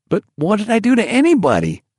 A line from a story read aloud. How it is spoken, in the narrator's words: cried